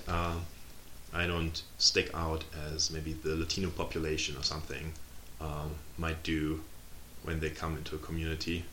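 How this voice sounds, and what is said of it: Non-American accent. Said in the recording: “I could pass as an American, right? Save for my accent”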